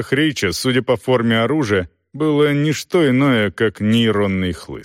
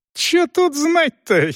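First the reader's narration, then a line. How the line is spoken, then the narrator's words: Giggling. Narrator (Russian): хихикнул Рич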